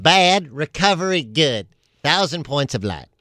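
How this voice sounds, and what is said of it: Imitates another person's voice. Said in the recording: “my impression of Dana Carvey's impression of George Bush”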